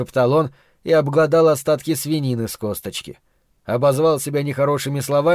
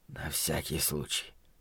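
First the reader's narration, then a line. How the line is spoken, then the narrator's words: Whisper. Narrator (Russian): шепотом сообщил Ллойд Хендрит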